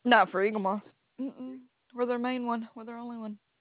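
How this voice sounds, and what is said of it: Southern American accent. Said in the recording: “I'm in Alabama. ... Southern accent.”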